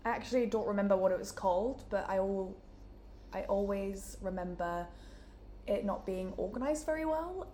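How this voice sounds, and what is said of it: Newcastle (Geordie) English accent. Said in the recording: “as you can tell from my accent, I'm from Newcastle”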